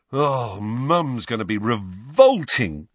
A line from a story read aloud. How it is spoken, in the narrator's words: groaned George